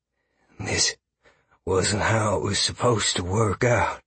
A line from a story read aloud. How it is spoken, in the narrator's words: Graves whispered